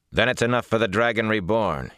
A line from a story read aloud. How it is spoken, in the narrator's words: replied sharply